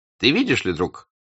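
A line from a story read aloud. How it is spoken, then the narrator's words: Plain. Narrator (Russian): сказал он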